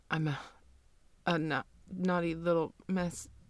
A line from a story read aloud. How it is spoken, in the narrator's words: You shakily stammer out